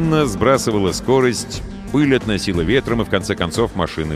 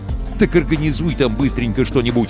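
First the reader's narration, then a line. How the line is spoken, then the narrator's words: Plain. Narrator (Russian): ответил капитан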